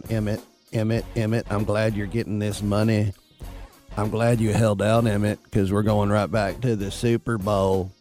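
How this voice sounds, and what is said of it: Low FM-radio style impression voice. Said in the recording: “I could do my Jerry Jones. That's always easy, where my voice is a little bit low, and I got that FM style going”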